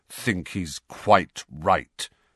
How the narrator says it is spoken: said Sirius through clenched teeth

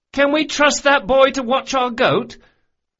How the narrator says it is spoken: Locke cried above the din

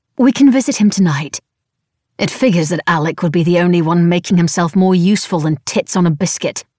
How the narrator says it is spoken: I grumbled

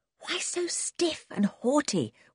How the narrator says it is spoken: whispered Dick

